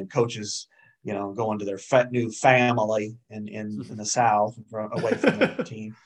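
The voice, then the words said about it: Put-on stretched Southern accent. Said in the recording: “I like that Southern accent you pulled off there ... I know how to stretch it out a little bit. I can't go all the way Louisiana”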